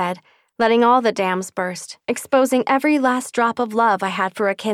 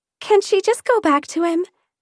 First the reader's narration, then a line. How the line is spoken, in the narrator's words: she pleaded